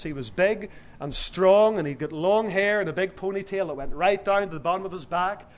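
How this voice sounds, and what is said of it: Irish-sounding accent. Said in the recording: “as he heard my accent... whenever you began to talk, I thought that you were from Ireland”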